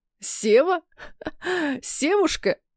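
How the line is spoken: Teasing, stammering with laughter. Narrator (Russian): заикаясь от смеха, поддразнил Илья

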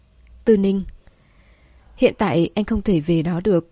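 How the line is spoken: Sighing. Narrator (Vietnamese): Vệ Cẩm Huyên thở dài

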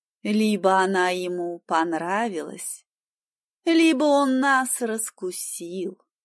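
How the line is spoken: Drawling woman. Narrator (Russian): протянула женщина

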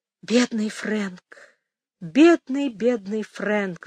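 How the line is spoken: Sighing. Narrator (Russian): вздохнула она

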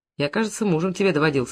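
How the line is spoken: Snorting. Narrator (Russian): хмыкнул Бабарыкин

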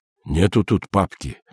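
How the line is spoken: Muttered. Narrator (Russian): пробормотал он

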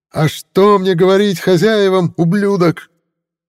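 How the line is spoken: Frantic yell, angry and afraid. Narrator (Russian): Ту истошно орал и был вне себя не столько от злости, но и от страха

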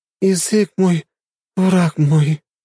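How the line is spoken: Moaning woman. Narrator (Russian): простонала блондинка

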